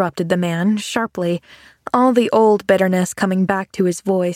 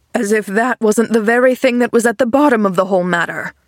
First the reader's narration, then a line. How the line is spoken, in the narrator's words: retorted the man testily